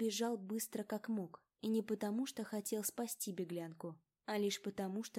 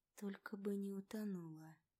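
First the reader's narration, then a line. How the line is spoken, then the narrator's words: Muttering. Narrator (Russian): Пробормотал Фредерик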